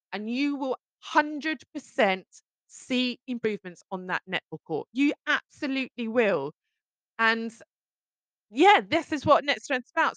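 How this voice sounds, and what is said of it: Excited, energetic voice. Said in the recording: “You can tell by my voice how excited I am”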